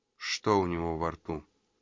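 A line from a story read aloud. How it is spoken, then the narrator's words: Forced out. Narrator (Russian): выдавил он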